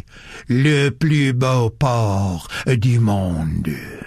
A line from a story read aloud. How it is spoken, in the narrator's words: he said solemnly